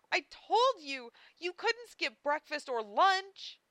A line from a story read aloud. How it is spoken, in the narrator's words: Amelia cried, as if it had been a matter of life or death